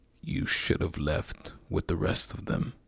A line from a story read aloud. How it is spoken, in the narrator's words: said the man with the axe, his voice so murky it was as though he knew what he was saying was vile